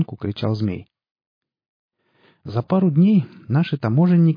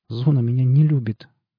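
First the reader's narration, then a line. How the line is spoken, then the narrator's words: Trembling voice. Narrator (Russian): дрожащим голосом ответил тот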